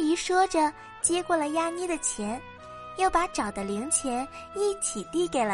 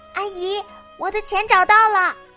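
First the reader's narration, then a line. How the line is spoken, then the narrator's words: Loud. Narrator (Chinese): 亚妮大声说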